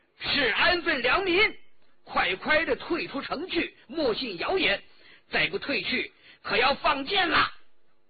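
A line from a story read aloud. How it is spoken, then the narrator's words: Bold loud officer's shout. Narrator (Chinese): 孙克通究竟是武官，颇有胆量，高声叫道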